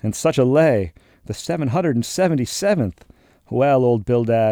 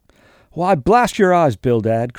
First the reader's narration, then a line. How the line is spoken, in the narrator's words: cried Peleg